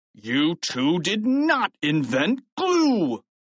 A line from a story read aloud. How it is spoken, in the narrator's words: he shouted